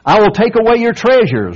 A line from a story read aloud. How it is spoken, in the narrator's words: roared the emperor